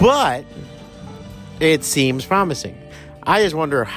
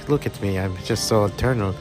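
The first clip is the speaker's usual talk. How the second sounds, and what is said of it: Put-on foreign Mediterranean accent. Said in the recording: “foreign Mediterranean accent.”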